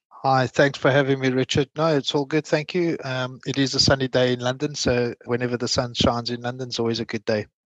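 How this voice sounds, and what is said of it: Non-English foreign accent. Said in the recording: “from the accent you can hear, I'm not English”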